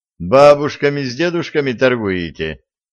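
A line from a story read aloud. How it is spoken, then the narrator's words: Laughing. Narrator (Russian): рассмеялся Виталий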